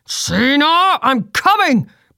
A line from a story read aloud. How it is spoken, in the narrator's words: Bristle shouted from behind them